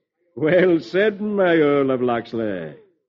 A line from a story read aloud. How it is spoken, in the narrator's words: King Richard chuckles